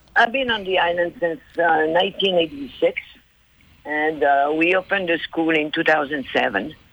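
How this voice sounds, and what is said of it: Authentic regional accent. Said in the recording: “love the accent ... It's authentic, isn't it? Isn't it beautiful? ... I like that accent.”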